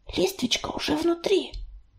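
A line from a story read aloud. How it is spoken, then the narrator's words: Whisper. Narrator (Russian): прошептала она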